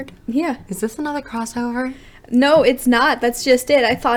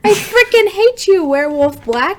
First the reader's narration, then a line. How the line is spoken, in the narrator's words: she screeched